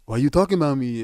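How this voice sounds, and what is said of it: Imitates another person's voice. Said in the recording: “my best Tony impersonation ... I was trying to make my voice sound short.”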